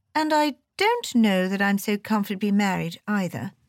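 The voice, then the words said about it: Melancholy character voice. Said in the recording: “in a melancholy voice.”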